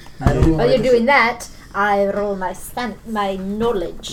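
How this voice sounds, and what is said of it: Put-on Russian accent. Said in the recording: “It's a very good accent. ... I only spent a year working on the Russian accent. ... This isn't quite Russian accent. ... It's pretty good, though.”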